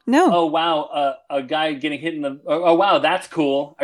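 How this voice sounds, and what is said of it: Sarcastic mock-enthusiastic tone. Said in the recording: “Are you being sarcastic? ... Yes.”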